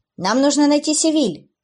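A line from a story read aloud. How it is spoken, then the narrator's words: Shouted. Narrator (Russian): крикнула Эбби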